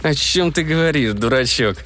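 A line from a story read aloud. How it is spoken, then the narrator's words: Through gritted teeth. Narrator (Russian): сквозь зубы процедил Каляткин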